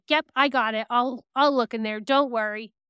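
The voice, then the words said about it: Matter-of-fact imitated child's voice. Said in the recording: “that's how her voice sounds. ... Just very matter of fact.”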